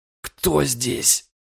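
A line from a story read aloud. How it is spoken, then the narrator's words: Hoarse. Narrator (Russian): прохрипел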